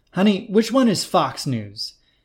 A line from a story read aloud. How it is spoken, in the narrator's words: he yelled from the couch